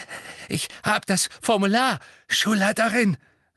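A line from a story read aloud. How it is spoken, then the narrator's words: Hoarse. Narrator (German): sagte er heiser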